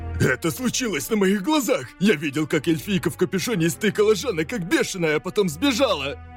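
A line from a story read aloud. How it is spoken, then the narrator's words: Werewolf man shouting. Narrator (Russian): Кричал мужчина-вервольф, житель Ривии, нашедший труп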